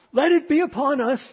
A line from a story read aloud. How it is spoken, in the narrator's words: they cried